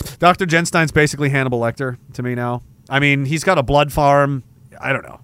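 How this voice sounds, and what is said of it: Usual voice. Nothing is said of it.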